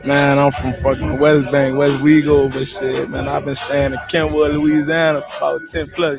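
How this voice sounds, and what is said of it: Noticeable regional Louisiana accent. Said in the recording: “Yeah, I can hear that in your accent.”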